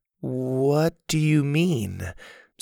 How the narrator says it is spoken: Susie asked slowly

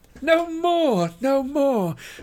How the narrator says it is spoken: cried the elves, laughing

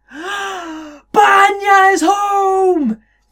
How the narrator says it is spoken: the old man called out

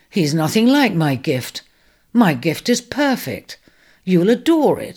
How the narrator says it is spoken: he said indignantly

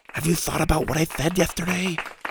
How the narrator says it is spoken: Mac whispered loudly

